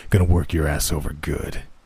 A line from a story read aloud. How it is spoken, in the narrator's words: he said in a deep, gravelly voice